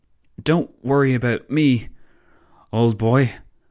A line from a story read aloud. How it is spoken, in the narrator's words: the Belgian stammered